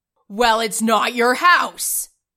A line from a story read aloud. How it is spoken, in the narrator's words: his father roared